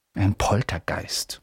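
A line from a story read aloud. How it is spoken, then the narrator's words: Whispering. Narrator (German): flüsterte Percy den Erstklässlern zu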